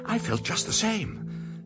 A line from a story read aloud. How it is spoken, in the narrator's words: said Edmund in a breathless voice